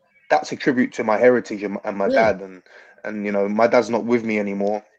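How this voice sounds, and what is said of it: London-sounding British accent. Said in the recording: “you sound like you're from London ... he doesn't have as thick of an accent”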